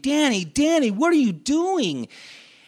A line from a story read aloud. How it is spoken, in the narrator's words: he was yelling after me